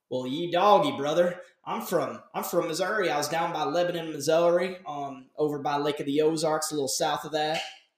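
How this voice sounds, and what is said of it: Put-on Southern Missouri accent. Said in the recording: “I went into a southern accent ... Sounds like ... New Jersey accent ... I had a decent Missouri accent”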